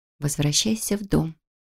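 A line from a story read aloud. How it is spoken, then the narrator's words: Inner voice whispering. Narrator (Russian): прошептал внутренний голос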